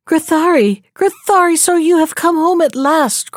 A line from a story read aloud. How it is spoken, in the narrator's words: cried they